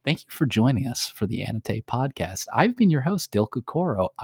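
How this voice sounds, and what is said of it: Soft, calm public-radio ASMR voice. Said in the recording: “NPR ASMR voice”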